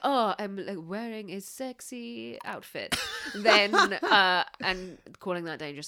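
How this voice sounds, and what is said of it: Put-on French accent. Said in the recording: “Your French ... Is only getting better. ... I really wish I hadn't done that accent.”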